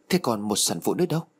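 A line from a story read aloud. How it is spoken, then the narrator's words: Two voices exclaiming together. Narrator (Vietnamese): tôi và cô cùng đồng loạt kêu lên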